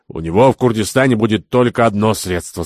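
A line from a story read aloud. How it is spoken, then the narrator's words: Very serious tone. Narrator (Russian): сказал Кирабан самым серьезным тоном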